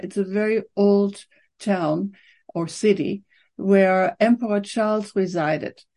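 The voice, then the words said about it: German accent. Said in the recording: “Where is the accent from? ... I was born in Germany”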